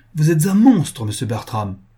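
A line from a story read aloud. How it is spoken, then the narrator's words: Exclaiming. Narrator (French): s'écria Caroline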